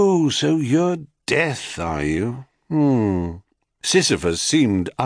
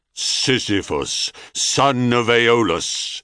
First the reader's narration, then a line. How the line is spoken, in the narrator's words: Thanatos intoned in quelling accents